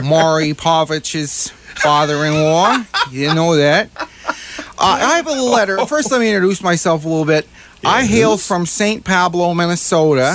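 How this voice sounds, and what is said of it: Put-on Midwest American accent. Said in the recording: “Here I am with my Midwest accent.”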